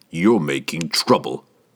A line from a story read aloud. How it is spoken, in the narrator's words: Jerden growled